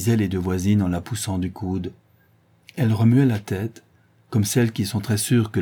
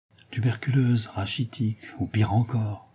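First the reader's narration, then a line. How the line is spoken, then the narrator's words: Murmured. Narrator (French): murmura Mademoiselle Renée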